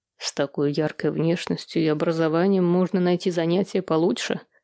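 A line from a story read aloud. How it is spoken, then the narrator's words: Quiet. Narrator (Russian): тихо промолвил Глеб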